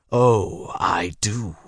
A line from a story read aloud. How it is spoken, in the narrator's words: Douglas said with a snarl